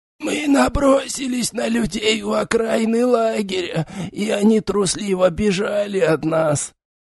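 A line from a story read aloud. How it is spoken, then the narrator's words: Wheezing wounded man. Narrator (Russian): Хрипел израненный Тхихан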